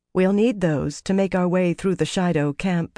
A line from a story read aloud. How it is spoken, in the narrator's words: Fael said gently